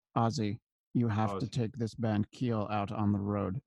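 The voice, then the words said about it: Slow, close-mic imitation of another's voice. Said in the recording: “do a Gene Simmons impersonation ... lean into the microphone ... you do it slow”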